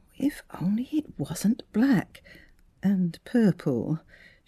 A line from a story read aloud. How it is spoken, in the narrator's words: she murmured